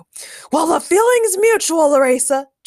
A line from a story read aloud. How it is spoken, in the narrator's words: Jorgen shot back angrily